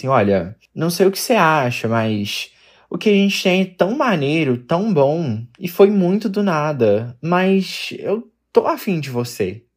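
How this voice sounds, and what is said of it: Poorly done Carioca Portuguese accent. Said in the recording (Portuguese): “Será que eu faço um sotaque carioca? ... Esse sotaque foi péssimo.”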